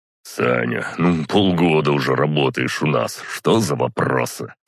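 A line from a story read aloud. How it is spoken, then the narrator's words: Snorting. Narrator (Russian): фыркнул Костя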